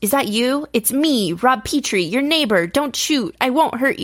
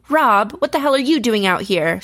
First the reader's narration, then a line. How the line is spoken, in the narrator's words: She asked in a slightly irritated voice